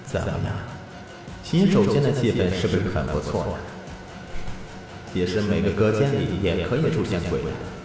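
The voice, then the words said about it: Eerie voice neither male nor female. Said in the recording (Chinese): “非男非女的声音说道”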